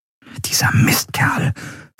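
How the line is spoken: Whispered. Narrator (German): flüsterte Endriel

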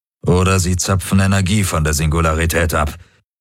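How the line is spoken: Plain. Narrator (German): sagte Darajos

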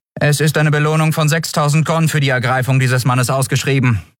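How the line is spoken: Flat toneless explanation. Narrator (German): erklärte die Friedenswächterin tonlos

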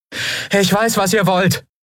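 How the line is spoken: Calling into forest. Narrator (German): rief Andriel in den Wald hinein

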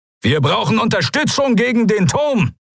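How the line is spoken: Calling out. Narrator (German): rief er

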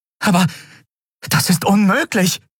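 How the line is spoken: Exclaiming. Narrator (German): rief sie aus

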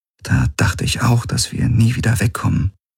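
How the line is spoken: Quiet. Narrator (German): sagte sie leise

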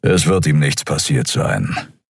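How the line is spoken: Grumbling. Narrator (German): brummte Keru

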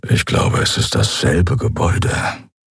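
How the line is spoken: Low grumble. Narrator (German): brummte Keru leise

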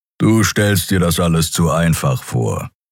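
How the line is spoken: Creature growling. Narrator (German): knurrte der Skria

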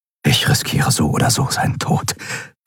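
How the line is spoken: Whisper. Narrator (German): flüsterte er

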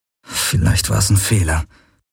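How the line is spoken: Murmured. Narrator (German): murmelte er

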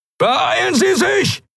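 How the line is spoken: Shouted. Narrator (German): schrie Telios in den Kubus

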